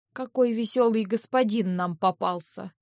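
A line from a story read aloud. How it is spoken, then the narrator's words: Quiet grumble. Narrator (Russian): проворчал тихонько Винсент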